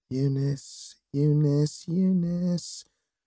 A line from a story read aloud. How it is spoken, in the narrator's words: said under her breath